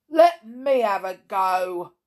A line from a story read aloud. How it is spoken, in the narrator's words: thundered the third ogre, who was possibly the least clever of the three, but by far the largest